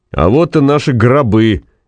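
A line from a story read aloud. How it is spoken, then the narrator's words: Cheerful, loud, ahead. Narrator (Russian): весело и громко произнес кто-то впереди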